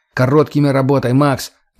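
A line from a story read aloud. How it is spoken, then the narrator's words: Barking shout. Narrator (Russian): рявкнул я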